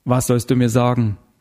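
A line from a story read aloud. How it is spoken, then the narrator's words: Plain. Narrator (German): fragte Heller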